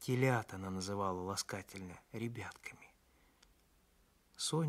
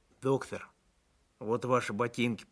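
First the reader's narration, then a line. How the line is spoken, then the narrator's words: Mutter. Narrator (Russian): пробурчал он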